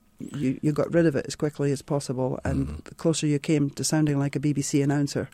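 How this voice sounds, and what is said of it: Distinctive non-American regional accent. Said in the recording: “I talked funny... the accent is an enormous boon... brush up my accent”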